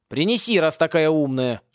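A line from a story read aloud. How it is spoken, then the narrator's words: Snapping. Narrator (Russian): огрызнулся Порри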